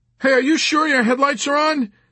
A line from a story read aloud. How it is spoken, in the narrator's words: Nately called out